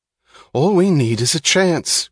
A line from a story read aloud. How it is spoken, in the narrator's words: cried Lawson